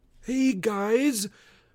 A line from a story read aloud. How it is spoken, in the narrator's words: yelled somewhere above us